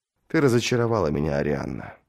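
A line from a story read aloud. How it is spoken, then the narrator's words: Sighing. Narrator (Russian): вздохнул принц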